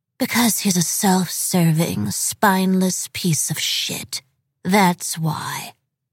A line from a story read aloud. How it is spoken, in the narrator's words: in the coldest voice in New York City said